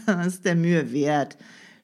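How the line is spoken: Mocking. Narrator (German): spöttelte Tinette

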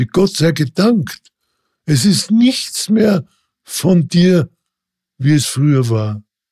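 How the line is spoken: Calling. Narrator (German): rief

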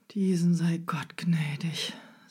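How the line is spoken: Sighing man. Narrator (German): seufzte der Fuhrmann

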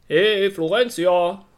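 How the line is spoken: Cheerful call. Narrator (German): rief ihr fröhlich eine Stimme zu

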